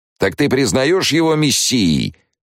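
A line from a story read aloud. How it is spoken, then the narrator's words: Shouted from crowd. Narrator (Russian): выкрикнул из толпы тот же голос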